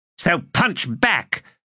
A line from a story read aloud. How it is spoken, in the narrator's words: Satrul snapped